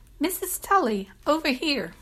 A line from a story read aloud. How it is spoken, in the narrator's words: set a smile on her face and called out